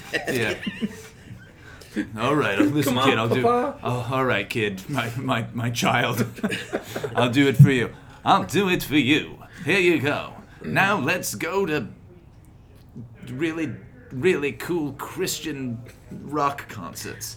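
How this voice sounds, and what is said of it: Imitates a character's voice. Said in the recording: “Do your Baxter voice. ... You didn't do it right”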